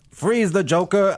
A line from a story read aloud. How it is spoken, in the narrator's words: I yelled